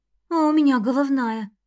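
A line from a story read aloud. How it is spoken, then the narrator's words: Glum mutter. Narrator (Russian): уныло пробормотала Эвелина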